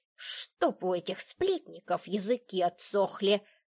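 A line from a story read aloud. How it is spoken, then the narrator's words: Grumbling. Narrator (Russian): проворчала она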